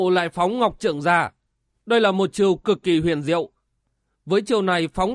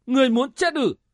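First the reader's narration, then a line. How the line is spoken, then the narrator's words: Embarrassed, angry loud shout. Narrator (Vietnamese): Vân Trung Tiên Tử thẹn quá hóa giận, lớn tiếng quát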